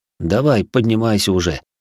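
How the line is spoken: Chuckled. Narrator (Russian): хмыкнул я

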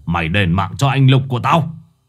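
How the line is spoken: Roaring. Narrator (Vietnamese): ông Cương gầm lên

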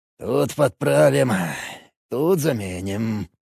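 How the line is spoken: Farmer muttering. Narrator (Russian): бормотал фермер

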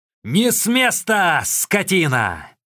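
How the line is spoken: Yelled. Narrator (Russian): Лу Чжишэнь завопил

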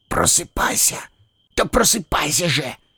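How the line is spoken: Whispering. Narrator (Russian): шептал Лис

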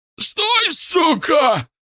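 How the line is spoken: Yelling thug. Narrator (Russian): орал бычок

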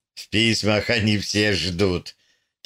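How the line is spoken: Soft laughing. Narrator (Russian): тихо засмеялся Поль

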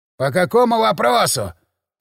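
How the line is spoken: Hoarse overhead speaker. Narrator (Russian): прохрипел где-то под потолком невидимый динамик

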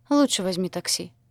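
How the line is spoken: Sighing. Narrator (Russian): вздохнула Шантия

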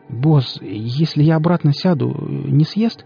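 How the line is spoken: Fearful babbling. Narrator (Russian): пролепетал Нарк, мечтая оказаться подальше от этого костра

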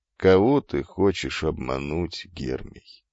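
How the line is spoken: Quiet question. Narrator (Russian): тихо спросил Тересий

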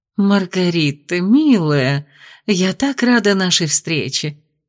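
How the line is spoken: Cooing. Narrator (Russian): проворковала леди Мира

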